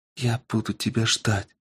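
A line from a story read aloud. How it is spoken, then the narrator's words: Whispered. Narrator (Russian): прошептала она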